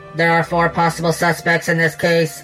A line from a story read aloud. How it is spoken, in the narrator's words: the computer said in a cold, mechanical voice